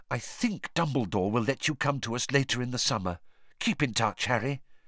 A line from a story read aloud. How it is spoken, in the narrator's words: whispered in his ear